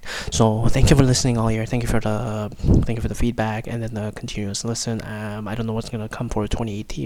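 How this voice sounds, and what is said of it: Quiet, mumbled speech. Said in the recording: “I'm mumbling here because I'm trying to record this ahead of time and I'm trying to stay quiet”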